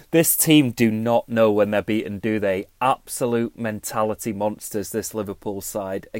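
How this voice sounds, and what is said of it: Slightly hoarse, strained voice. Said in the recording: “Lost my voice a little bit from cheering so much.”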